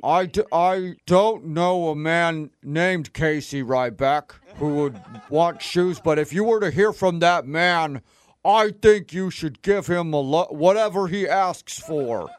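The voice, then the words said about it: Silly disguised put-on voice. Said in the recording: “You just had to change your voice. ... trying to use some stupid voice”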